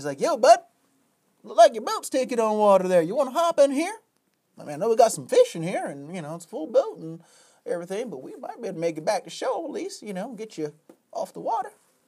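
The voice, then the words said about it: Put-on Southern or Cajun accent. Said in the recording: “I'm throwing in this accent, by the way. This guy did not have a Southern accent or Cajun or whatever I'm doing here”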